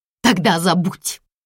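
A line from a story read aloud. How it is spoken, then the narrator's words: Angrily spat out. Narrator (Russian): Зло выплевывает Ойра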